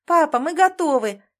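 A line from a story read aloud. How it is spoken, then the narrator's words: Girls shouting. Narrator (Russian): закричали девочки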